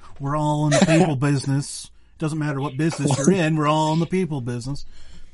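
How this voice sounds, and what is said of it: Imitates another person's voice. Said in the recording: “my awkward Dr. Phil impersonation.”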